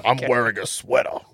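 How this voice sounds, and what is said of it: Imitates another person's voice. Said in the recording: “Really good impression.”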